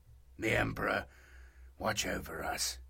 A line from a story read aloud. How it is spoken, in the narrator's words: he said quietly